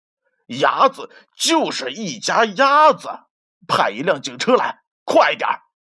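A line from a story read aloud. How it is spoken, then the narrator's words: Loud shouting. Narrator (Chinese): 麦克大声的喊道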